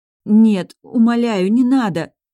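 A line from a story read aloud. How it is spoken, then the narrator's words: Horrified moan. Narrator (Russian): простонала я, ужасаясь ее мыслям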